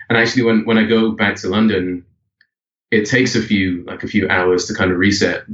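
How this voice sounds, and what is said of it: British accent. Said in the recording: “I'm certainly picked up on the British accent throughout kind of the entire, ... you know, this entire conversation.”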